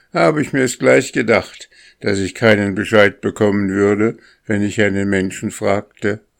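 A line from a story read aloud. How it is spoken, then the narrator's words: Boy calling out. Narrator (German): rief der Junge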